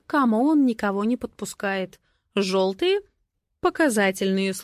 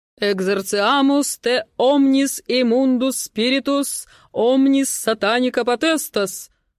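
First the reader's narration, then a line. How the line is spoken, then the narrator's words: Loud declaiming. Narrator (Russian): громко декларирует он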